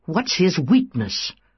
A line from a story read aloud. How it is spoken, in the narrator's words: demanded angrily